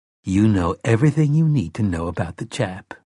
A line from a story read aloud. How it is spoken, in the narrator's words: Mia said